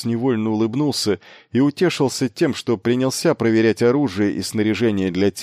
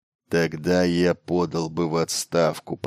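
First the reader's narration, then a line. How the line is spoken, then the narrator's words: Muttered. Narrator (Russian): пробормотал Батари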